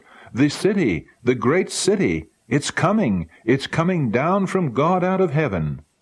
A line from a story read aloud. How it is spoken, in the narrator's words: We all cried out